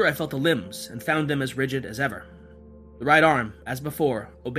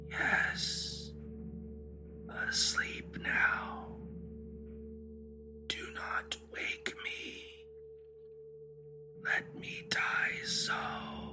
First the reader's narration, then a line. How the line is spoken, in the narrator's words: The lips moved sluggishly, and from between them, in a barely audible whisper, issued the words